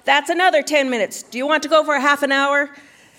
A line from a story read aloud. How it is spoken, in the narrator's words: he yelled